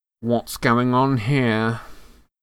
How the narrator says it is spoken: came the cold, drawling voice of Draco Malfoy

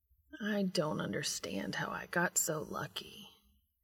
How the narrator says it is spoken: Cass wonders dreamily

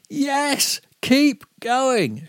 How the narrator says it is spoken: she shouted

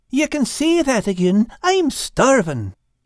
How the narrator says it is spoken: Al piped in

